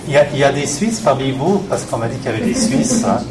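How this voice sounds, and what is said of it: Swiss French accent. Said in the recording (French): “Vous vous repérez, je suppose, par l'accent que je ne suis pas de la région. Je viens de Suisse et précisément du canton de Fribourg”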